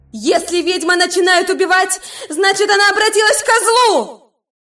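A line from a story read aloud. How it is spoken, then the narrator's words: Silent inner shout. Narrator (Russian): Мысленно заорала она на себя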